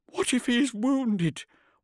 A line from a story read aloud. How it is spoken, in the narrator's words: whined, an obese creature with shaking jowls